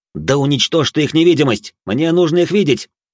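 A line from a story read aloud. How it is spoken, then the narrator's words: Snapping back. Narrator (Russian): Тот огрызнулся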